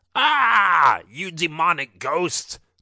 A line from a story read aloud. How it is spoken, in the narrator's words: the pig zombie screamed